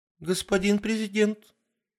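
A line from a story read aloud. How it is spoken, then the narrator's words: Squeaky young female voice. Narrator (Russian): пискнула одна из девушек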